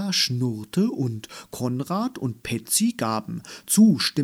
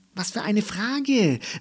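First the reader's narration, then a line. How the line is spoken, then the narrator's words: Calling out. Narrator (German): rief ihr Elli vom Buchregal zu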